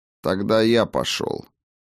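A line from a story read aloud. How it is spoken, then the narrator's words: Calm. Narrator (Russian): спокойно сказал Хаген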